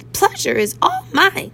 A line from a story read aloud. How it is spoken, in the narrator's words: I squeaked